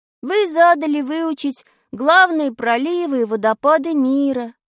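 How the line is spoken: Dull, drawn-out. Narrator (Russian): уныло протянул я

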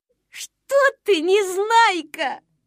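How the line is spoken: Laughing. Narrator (Russian): засмеялся Стекляшкин

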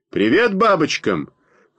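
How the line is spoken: Shouted. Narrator (Russian): крикнул он

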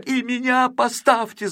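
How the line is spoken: Shouting. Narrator (Russian): закричал он

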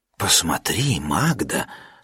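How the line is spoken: Old uncle's undertone. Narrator (Russian): сказал вполголоса дядюшка Нильс

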